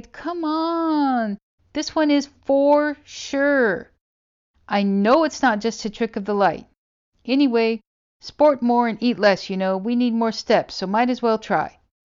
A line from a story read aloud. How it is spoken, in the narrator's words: I begged